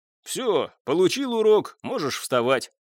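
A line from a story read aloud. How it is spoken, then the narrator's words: Good-natured booming. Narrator (Russian): добродушно прогудел конюх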